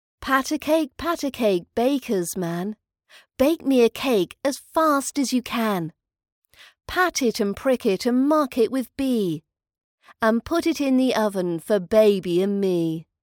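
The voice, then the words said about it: British accent. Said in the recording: “British accent training”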